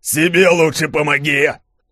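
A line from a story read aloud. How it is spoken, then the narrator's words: Roaring. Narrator (Russian): взревел Громов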